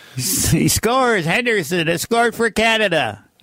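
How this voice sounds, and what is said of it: Imitates a sports play-by-play announcer. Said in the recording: “my Foster Hewitt impression.”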